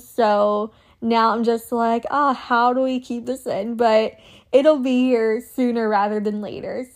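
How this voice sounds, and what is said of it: Excited voice. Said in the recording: “it's been really hard to contain my excitement. You can probably hear it in my voice.”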